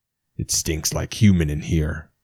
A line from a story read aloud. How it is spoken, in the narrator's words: the ogre growled